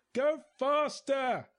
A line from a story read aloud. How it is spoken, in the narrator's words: I yelled, as loudly as I could manage with a mouthful of deck varnish